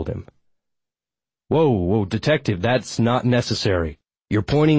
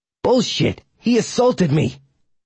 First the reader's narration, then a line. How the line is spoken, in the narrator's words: Fagel spat